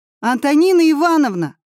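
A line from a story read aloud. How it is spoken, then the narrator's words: Shouting in unison. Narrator (Russian): закричали мы все вместе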